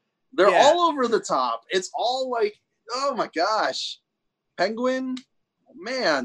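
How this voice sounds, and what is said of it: Usual voice. Nothing is said of it.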